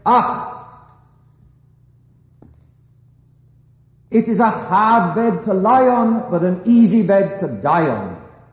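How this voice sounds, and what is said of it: Attempted Scottish accent. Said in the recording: “I'm not sure I should get the Scottish accent right, but I shall try.”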